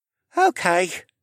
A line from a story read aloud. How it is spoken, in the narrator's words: sighed